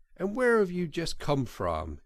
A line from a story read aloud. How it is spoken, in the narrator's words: he asked